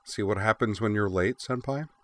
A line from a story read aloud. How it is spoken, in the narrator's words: quipped Azusa dryly